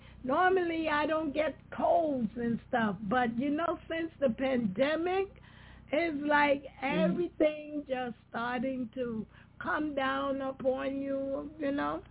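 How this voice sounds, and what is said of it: Hoarse, fading voice. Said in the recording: “my voice is going away”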